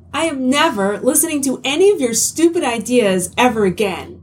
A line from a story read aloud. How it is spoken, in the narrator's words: Helen snapped